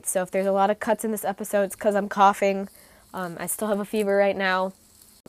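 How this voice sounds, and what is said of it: Stuffy, congested sick voice. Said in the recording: “I am sick. I am sorry if I sound gross and stuffy. ... if my voice is a little bit stuffy or annoying”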